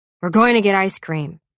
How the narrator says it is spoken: Daddy grunted

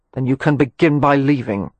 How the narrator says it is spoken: Mary Penn growled

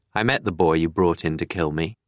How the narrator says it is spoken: James continued in a conversational tone

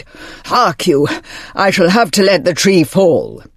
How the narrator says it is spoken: The giant, could go no further, and cried

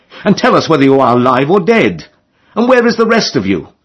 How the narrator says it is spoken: cried

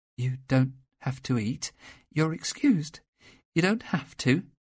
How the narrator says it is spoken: she said soothingly

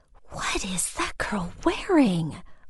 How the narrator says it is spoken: Lexi whispered, clearly outraged

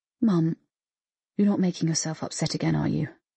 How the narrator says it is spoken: he said softly

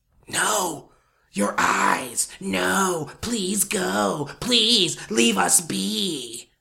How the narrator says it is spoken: it whispered

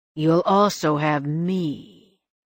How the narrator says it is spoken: he said slowly, his voice a possessive drawl

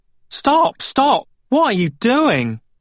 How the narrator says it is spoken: Valiant yelled

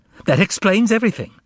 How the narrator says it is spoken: she exclaimed

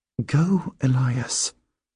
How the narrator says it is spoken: she murmurs

